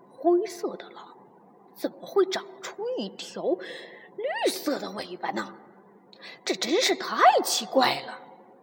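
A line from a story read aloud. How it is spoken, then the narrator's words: Muttering. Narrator (Chinese): 他嘀嘀咕咕道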